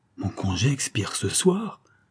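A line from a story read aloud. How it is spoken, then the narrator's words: Exclaimed. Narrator (French): s'écria le comte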